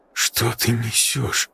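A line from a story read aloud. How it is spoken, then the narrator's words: Hushed awed mutter. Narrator (Russian): пробормотал Игорь с тихим, благоговейным ужасом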